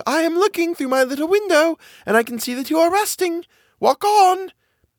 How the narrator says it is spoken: one of the girls in the basket called out

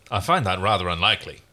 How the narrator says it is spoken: Aaron said dryly

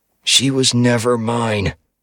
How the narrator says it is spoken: I growled out between my bloody teeth

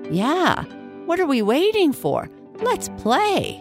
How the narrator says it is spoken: said Squeak excitedly

